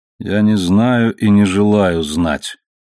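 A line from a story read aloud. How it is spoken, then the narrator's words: Tired voice. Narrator (Russian): был странный ответ, произнесенный усталым голосом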